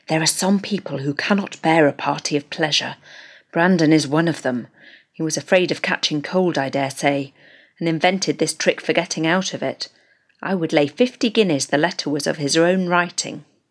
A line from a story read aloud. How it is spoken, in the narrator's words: Willoughby say in a low voice to Marianne